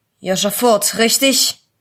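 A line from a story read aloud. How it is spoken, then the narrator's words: Rough-voiced question. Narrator (German): fragte der Polizist mit einer rauen Stimme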